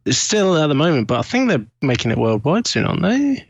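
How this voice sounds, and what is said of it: British accent. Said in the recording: “we can obviously from your accent, we can tell you're British.”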